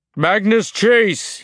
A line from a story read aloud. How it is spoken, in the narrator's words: he called out